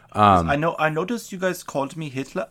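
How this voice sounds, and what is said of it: Poor South African accent, sounds German. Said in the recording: “I can't do a South African. I sound German... Went Swiss... That's my South African accent”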